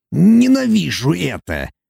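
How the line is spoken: Dwarf's grumble. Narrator (Russian): пробурчал карлик

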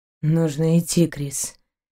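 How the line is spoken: Quiet reply. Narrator (Russian): тихо отозвался капитан

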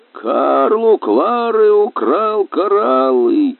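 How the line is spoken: Happy laughing. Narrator (Russian): Клара Курбе счастливо засмеялась

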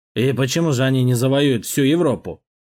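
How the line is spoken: Incredulous snort. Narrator (Russian): Хмыкнул, не веря, герцог

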